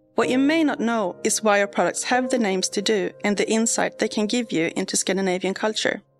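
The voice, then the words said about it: Swedish accent. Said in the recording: “As you can tell by my voice, I'm Swedish”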